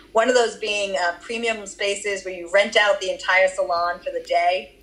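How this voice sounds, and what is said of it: Boston accent slipping through. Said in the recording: “That was my Boston accent that came up.”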